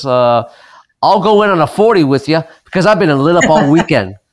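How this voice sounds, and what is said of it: Imitates another person's voice. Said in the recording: “my best impersonation of Carlo was ... that's my impersonation of Carlo”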